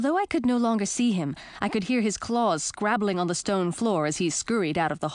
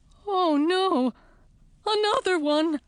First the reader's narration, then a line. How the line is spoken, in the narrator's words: whined Bowser